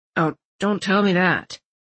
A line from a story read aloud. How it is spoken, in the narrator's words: Landon muttered